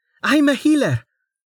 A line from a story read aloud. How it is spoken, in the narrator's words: shouted over the noise, desperately